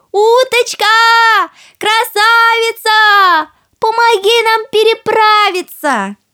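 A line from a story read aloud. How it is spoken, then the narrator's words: Shouted. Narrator (Russian): крикнула уточке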